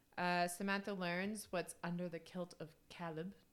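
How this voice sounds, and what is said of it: Poor put-on Scottish accent. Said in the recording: “That was a terrible accent. ... Scottish.”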